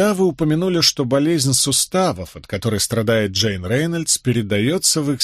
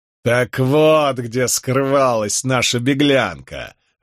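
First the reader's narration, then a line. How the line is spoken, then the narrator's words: Loud laughter. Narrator (Russian): расхохотался Воувал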